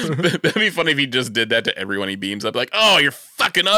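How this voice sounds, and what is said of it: Usual voice. Nothing is said of it.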